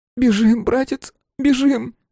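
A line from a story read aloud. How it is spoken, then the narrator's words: Hoarse rasp. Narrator (Russian): прохрипела Лукерья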